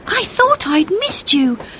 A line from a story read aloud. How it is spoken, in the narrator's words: she gasped